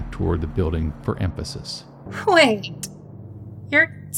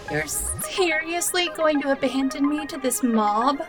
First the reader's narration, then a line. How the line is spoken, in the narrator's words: Cassie whined